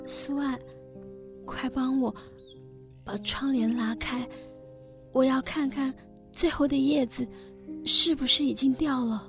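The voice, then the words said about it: Weak, feeble voice. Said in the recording (Chinese): “用虚弱的声音说”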